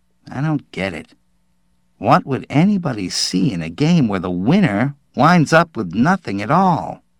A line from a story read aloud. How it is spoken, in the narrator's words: Joe Hawk grumbled